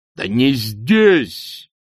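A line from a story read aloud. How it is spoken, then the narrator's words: High master barking. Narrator (Russian): рявкнул верховный магистр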